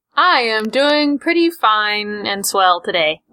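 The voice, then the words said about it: Flat robotic voice. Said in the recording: “talking like a robot”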